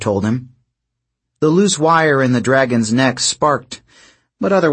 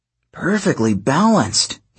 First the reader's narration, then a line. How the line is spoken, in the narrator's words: he muttered